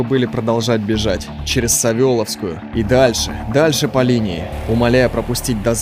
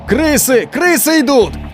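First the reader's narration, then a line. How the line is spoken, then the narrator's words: Shouting with full force. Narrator (Russian): изо всех сил кричали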